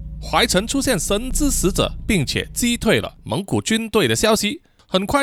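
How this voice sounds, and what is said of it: Usual voice. Nothing is said of it.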